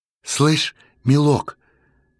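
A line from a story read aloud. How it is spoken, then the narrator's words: Uncertain doubtful woman. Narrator (Russian): неуверенно засомневалась тетка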